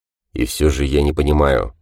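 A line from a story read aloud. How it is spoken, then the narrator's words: Muttering. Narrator (Russian): пробормотал Гант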